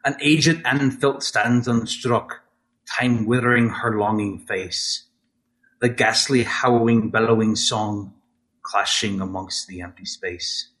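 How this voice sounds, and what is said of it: Put-on Scottish or Irish accent. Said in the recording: “I'm going to try to read it in the accent in which I originally wrote it in. So forgive me if it is botched up to hell. If you are Scottish/Irish, I apologize.”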